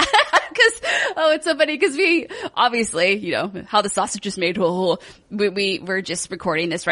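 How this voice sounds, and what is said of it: Usual voice. Nothing is said of it.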